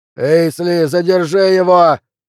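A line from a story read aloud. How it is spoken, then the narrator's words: Shout. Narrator (Russian): крикнул Флинт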